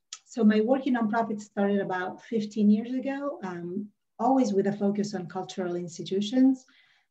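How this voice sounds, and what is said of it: Italian accent in English. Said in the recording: “you will detect an accent right away. I was born and raised in Rome, Italy”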